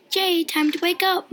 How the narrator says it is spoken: my mom yells from the kitchen

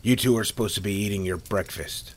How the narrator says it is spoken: Al said in a stern tone that startled the two boys

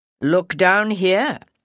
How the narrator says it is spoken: Kynan said dryly

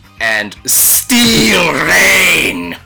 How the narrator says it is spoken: Constantly shouting

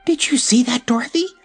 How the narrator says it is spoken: she gasped

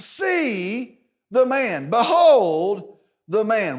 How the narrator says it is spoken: he exclaims

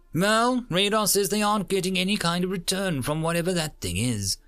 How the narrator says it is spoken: said testily

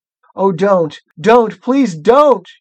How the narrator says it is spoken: shouted Edmund

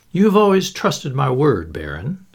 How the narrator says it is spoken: said Anthony

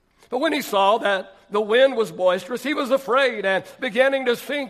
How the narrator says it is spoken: he cried out, saying

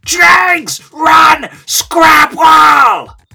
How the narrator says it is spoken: the other head yells back

